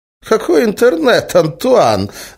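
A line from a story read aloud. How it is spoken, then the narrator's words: Laughing. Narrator (Russian): засмеялся Эразм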